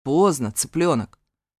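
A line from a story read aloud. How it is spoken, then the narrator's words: Stern rumble. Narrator (Russian): строго пророкотал Асад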